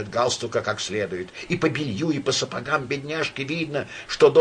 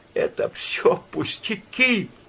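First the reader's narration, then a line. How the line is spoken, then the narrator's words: Sobbing. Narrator (Russian): зарыдала Надежда Федоровна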